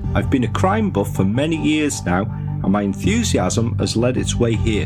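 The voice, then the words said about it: Northern English accent. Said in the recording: “the northern accent and the down-to-earth manner”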